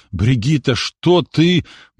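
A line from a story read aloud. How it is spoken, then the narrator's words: Breathless, forced out. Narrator (Russian): парень, задыхаясь, выдавил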